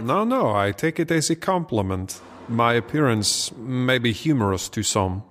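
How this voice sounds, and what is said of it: Put-on French accent. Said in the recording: “You are referring to my accent. Well, today it suits me to be a Frenchman”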